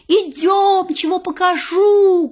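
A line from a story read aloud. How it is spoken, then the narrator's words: Pig shouting. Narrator (Russian): кричала свинка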